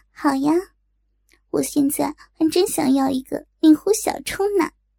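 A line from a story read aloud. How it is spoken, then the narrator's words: Laughing. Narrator (Chinese): 莹莹笑道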